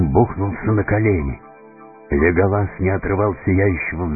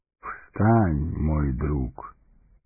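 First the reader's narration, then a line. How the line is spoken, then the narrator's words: Gentle, affectionate. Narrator (Russian): ласково сказал он гному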